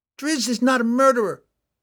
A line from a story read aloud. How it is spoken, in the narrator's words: Catterby yelled back